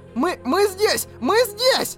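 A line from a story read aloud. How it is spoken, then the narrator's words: Yelled. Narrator (Russian): завопила Лис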